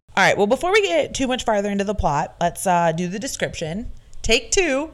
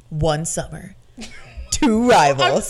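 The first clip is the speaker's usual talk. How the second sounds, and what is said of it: Dramatic movie trailer announcer voice. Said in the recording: “It's my movie announcer voice.”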